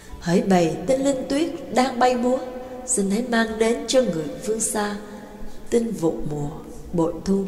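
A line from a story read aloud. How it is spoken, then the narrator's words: Soft singing. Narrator (Vietnamese): Mã Cát nhẹ nhàng cất tiếng hát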